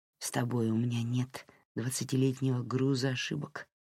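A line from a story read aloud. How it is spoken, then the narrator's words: Whispered. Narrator (Russian): прошептал Дерек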